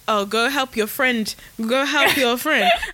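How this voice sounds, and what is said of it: Put-on slightly Nigerian-sounding accent. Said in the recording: “I don't know why my accent came out a bit Nigerian.”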